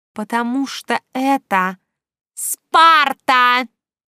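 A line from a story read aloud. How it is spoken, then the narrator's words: Loud growl then laughing. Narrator (Russian): Громко рыкнув, а затем засмеявшись, Снежка тут же пояснила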